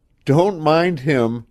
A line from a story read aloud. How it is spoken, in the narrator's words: she gasped